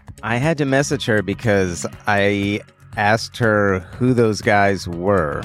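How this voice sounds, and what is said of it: Usual voice. Nothing is said of it.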